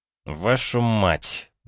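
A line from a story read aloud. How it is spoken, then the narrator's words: Muttered through teeth. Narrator (Russian): процедил сквозь зубы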